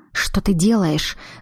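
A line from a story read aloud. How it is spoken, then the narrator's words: Hissed through a smile. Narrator (Russian): зашипела Глаша, улыбаясь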